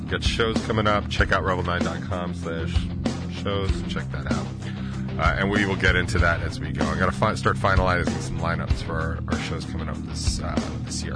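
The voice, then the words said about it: Out of breath, panting speech. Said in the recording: “I'm super out of breath just from that.”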